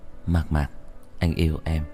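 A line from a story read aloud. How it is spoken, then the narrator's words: Soft whisper. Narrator (Vietnamese): Anh khẽ thì thầm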